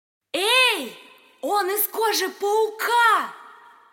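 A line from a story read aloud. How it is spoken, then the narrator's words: Shouted. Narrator (Russian): крикнула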